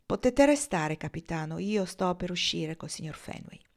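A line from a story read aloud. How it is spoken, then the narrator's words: Firm steady voice. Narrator (Italian): Marnie rispose con voce ferma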